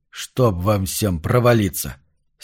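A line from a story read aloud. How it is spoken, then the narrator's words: Angry curse. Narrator (Russian): сердито выругался Марш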